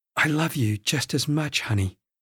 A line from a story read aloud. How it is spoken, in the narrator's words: Charlie whispered